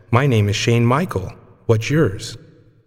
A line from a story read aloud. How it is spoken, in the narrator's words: The boy calmly said